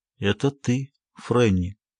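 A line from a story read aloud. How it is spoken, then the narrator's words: Quiet. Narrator (Russian): тихо сказал он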